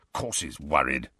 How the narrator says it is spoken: growled Moody

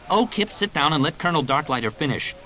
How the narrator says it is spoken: Jaina snapped

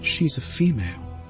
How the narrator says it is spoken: Annalene whispered to Ben

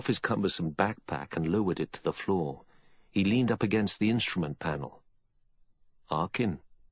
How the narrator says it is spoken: he said evenly

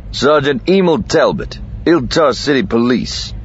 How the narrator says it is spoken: Lando said curtly

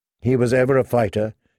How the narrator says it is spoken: she said

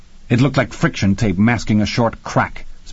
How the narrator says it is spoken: Spengler said very firmly

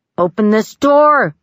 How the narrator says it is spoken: he shouted

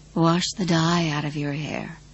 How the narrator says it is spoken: Rose Madder whispered

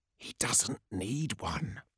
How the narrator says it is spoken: he said in a stage whisper

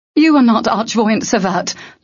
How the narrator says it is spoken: Locke shouted

